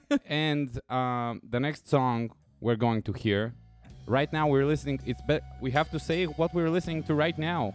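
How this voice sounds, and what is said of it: Bulgarian English accent. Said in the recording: “this is a Russian accent, which is commonly mistaken for a Bulgarian English accent. What you're hearing now is a Bulgarian English accent.”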